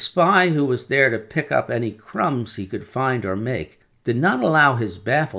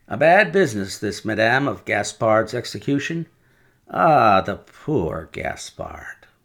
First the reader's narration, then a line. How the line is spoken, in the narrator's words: with a sigh of great compassion